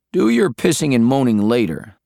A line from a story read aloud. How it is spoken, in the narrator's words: Talon said